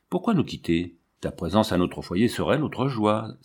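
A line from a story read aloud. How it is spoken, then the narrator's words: Exclaimed. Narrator (French): s'exclama monsieur de Sermès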